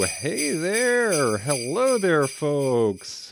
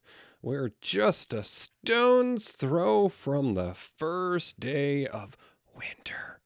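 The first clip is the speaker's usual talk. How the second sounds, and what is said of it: Soft, quiet delivery. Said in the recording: “I said it softly”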